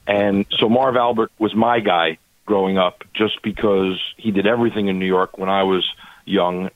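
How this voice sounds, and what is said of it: New York accent. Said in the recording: “I grew up in New York City, for those who can't tell by my lovely accent.”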